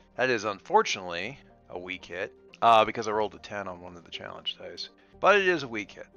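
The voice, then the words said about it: Lingering character accent while narrating. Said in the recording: “Having a little trouble getting rid of Earl's accent when I'm not actually speaking as Earl tonight.”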